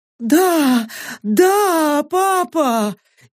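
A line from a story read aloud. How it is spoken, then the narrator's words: Frightened trembling scream. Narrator (Russian): Испуганно закричала Сака, и этот дрожащий крик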